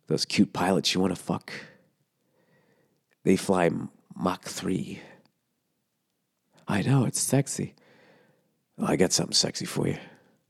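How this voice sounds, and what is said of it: Put-on sexy stud voice. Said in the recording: “doing a fucking stud voice”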